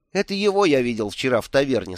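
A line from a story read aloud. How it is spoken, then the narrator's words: Plain. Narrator (Russian): сказал Бедн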